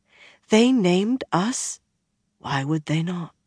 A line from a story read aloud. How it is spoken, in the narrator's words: Swan breathed